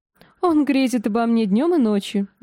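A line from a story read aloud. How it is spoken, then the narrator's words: Laughing. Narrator (Russian): засмеялась она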